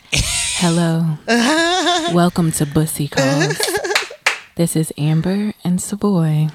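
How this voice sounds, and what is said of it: Light, sultry phone-operator voice. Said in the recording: “in a lighter voice, so it kind of feels like ASMR ... I was giving you my sex operator voice ... She had a good sex operator, you know, voice going on”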